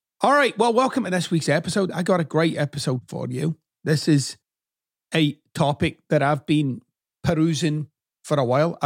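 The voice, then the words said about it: Mixed Scottish and Texan-American accent. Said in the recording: “stuck somewhere between Matthew McConaughey and Billy Connolly. Not physically, of course, just in terms of the accent.”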